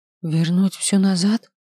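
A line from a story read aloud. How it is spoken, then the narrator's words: Trembling voice. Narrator (Russian): спросила я дрожащим голосом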